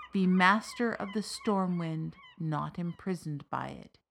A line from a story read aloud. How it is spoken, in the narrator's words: she said